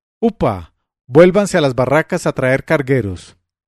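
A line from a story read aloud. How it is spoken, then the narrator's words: Tyrant shouting. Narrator (Spanish): El tirano gritó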